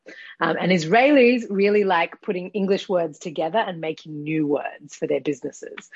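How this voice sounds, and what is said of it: Australian accent. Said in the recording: “I'm Australian, as you might be able to hear from my accent”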